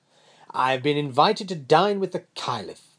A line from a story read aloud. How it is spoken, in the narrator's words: he laughed